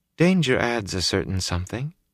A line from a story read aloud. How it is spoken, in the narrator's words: she said softly